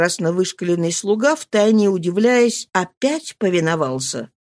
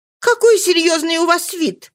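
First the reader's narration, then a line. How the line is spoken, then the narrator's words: Cheerful carefree exclamation. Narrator (Russian): воскликнула она с видом веселым и беззаботным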